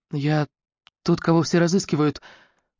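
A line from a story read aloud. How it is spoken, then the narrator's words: Fearful whisper over phone. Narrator (Russian): боязливо шептал он в телефон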